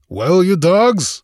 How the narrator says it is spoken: he roared

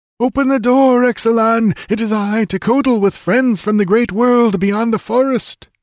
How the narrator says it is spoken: He lifted his voice and called

